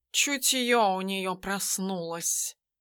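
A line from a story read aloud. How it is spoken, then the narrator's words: Grumbling cat. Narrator (Russian): проворчал кот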